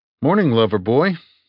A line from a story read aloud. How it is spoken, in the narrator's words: I said brightly